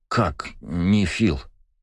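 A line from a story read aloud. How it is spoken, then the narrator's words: Stammering mumble. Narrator (Russian): заикаясь, промямлил Джекс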